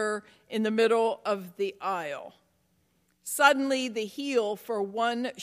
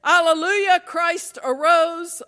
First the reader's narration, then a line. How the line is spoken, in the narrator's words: a voice was heard from under the church shouting